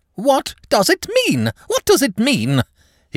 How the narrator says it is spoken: he cried

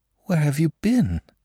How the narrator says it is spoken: she asked in a frightened whisper

